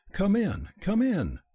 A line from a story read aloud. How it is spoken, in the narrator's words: cried Gabriella